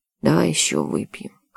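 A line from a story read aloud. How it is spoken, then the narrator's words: Hoarse captain. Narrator (Russian): хрипло произнес капитан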